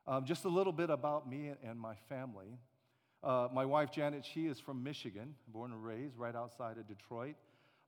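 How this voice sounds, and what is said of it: Slight Alabama Southern accent. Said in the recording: “you might hear a slight accent that I have, and that's because I'm from Montgomery, Alabama ... that's my Alabama accent”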